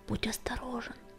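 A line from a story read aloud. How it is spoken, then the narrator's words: Whispered. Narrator (Russian): прошептала песчаная буря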